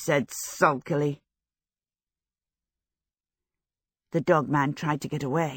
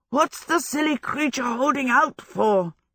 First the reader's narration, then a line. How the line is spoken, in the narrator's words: Howell panted